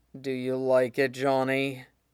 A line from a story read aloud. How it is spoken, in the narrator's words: He moans